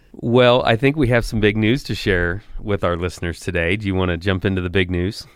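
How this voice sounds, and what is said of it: Slightly hoarse voice. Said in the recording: “My voice is a little bit hoarse ... more from the cold than the cheering”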